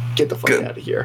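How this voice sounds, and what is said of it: Put-on New York accent. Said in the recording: “Some New Yorker. do the voice.”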